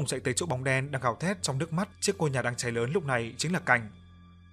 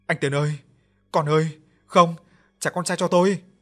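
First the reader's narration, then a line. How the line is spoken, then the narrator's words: Screaming. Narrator (Vietnamese): Bóng đen hét lên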